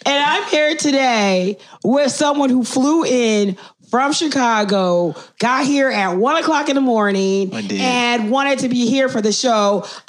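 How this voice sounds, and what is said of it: Raspy, hoarse voice. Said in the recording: “raspy-ass”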